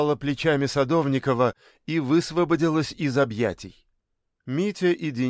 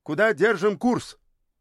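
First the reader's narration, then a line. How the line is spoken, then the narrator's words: Cheerful boy's shout. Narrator (Russian): Мальчик сразу повеселел, крикнул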